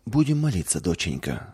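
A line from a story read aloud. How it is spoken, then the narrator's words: Calm mother's voice. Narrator (Russian): спокойно сказала мама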